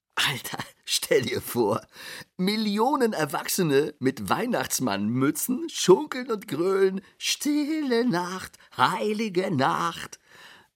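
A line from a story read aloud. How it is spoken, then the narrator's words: Laughing hard. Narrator (German): Er lachte sich scheckig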